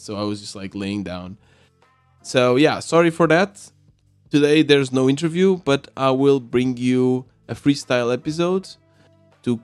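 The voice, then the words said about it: Sick, congested-sounding voice. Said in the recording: “As you can hear from my voice, I am still recovering from a cold.”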